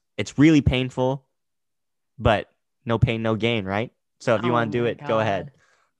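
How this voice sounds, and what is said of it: Sarcastic tone. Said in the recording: “that's sarcasm. If you can't tell from my voice.”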